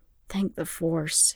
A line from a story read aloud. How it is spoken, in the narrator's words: he whispered